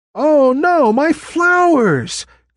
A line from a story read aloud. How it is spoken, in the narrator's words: cried the copperpod tree